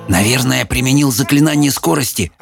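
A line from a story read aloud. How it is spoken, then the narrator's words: Whisper. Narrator (Russian): прошептал Майкл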